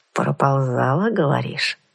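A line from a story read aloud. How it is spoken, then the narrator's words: Thoughtful repetition. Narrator (Russian): Задумчиво повторил бандит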